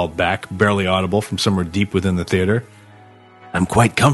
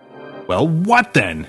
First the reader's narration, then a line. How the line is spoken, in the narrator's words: she shouted back to him in her mind